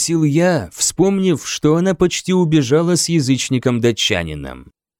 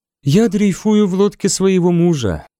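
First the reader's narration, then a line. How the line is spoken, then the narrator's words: Sighing. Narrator (Russian): вздохнула она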